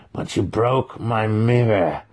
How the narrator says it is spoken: the master growled

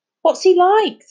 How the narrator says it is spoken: said Charlie breathlessly

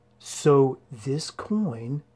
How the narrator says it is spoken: began Aiden, speaking slowly because he wanted to be sure he had it right

